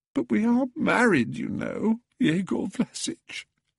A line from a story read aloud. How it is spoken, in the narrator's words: sobbed Pelagia